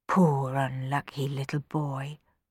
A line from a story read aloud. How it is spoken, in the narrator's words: murmured Rowan